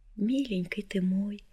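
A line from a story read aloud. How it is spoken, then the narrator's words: Soft, tender. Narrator (Russian): сказала она тихо, ласково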